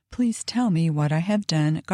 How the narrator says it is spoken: pleads, sobbing, repeating the question in excess of 6 times

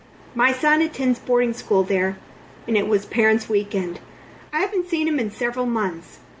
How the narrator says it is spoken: he said

